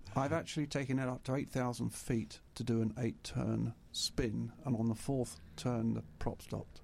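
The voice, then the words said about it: British accent. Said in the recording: “I'm assuming you're British. You've got an accent.”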